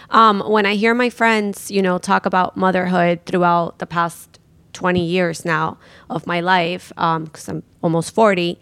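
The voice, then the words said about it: Cracking, emotional voice. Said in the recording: “my voice is cracking”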